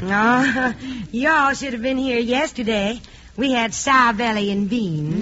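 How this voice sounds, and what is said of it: Put-on Southern American accent. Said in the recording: “that southern accent”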